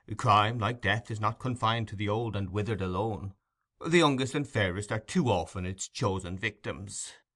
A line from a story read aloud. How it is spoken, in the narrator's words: rejoined the surgeon, mournfully